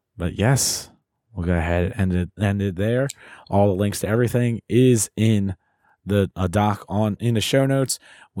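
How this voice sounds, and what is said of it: Raspy, hoarse voice. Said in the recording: “Hopefully my voice will be back. You won't have to hear this raspy mess.”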